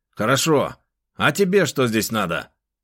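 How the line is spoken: Rude question. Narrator (Russian): грубо спросил он

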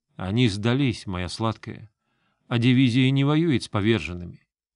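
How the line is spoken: Composed calm reply. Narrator (Russian): он справился с собой и спокойно ответил

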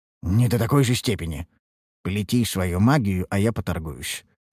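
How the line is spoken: Whispered. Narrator (Russian): шепнул я подопечный

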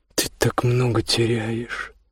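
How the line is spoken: Sad mutter. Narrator (Russian): пробормотала она печально

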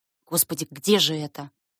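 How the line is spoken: Muttering. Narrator (Russian): бормочу я

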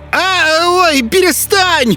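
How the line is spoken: Shrieked in wild fright. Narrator (Russian): В диком испуге завизжала она

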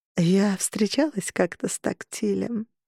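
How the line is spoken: Purring. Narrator (Russian): промурлыкала Харпер

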